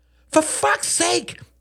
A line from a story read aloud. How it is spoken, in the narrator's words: cried Beatrice